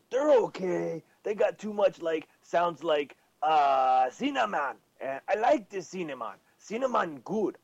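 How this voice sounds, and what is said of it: Silly dumb-sounding character voice. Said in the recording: “Rest of show, I speak like this. I'd be stupid fucking, stupid voice.”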